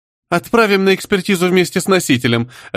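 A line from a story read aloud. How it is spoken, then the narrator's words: Laughing. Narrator (Russian): рассмеялась шутница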